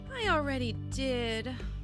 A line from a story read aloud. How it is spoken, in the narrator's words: Emma sighed